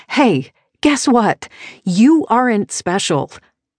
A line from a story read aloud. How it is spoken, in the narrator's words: scream